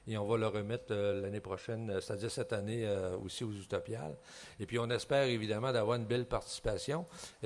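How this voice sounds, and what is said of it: Slight Québécois French accent. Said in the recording (French): “on a un léger accent ... « Ah, vous êtes Québécois! »”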